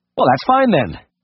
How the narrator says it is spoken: said impatiently

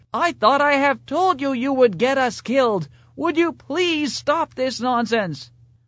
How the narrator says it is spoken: the passenger ... shouted

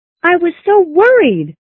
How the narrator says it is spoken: she cried

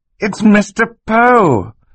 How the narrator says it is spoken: Klaus cried

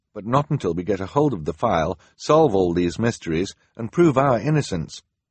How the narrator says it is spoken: Sunny said firmly

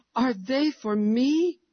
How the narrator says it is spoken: exclaimed Jenny, clapping her hands in delight

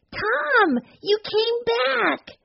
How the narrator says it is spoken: almost shouted

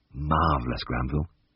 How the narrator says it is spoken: murmured

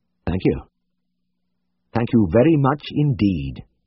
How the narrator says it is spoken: Tristan said in a flat voice

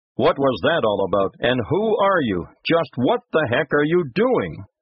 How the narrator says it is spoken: shouting

